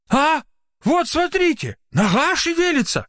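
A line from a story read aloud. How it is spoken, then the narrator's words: Exclaimed. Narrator (Russian): воскликнул Трофимыч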